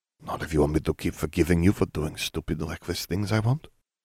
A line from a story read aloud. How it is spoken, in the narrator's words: Fleur murmured